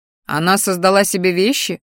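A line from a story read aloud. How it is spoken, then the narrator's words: Skeptical snort. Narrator (Russian): хмыкнул ректор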